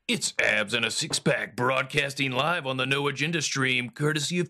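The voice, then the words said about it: Announcer-style radio voice. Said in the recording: “how's my radio voice? Is my radio voice as good as yours”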